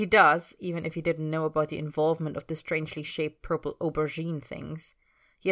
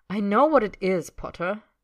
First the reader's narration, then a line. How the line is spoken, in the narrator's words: Draco says crossly